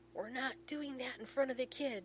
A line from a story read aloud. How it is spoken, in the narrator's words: John shouts back